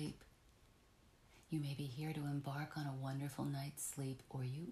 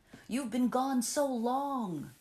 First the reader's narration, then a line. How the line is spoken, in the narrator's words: he shouted above the wind